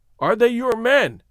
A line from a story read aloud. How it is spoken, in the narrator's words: he repeated impatiently